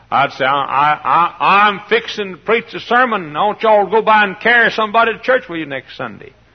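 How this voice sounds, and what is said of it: Strong regional accent. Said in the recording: “my accent was even worse then than it is now ... They couldn't understand what I was saying”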